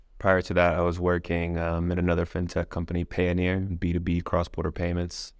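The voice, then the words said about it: Non-British accent. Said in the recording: “obviously you can tell by the accent, I'm not originally from the UK ... after moving from Hong Kong”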